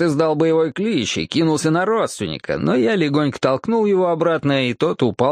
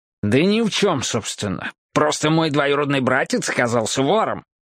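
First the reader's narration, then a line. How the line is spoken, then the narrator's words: Irritated. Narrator (Russian): раздраженно заявил Джоэл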